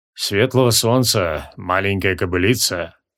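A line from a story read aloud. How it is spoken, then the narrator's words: Slightly husky bass. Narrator (Russian): прозвучал чуть хрипловатый басок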